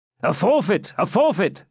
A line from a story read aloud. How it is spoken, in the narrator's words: shouted the robbers